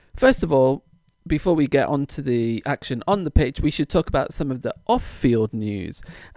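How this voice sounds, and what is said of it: Mixed hybrid English accent. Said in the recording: “my rather hybrid accent”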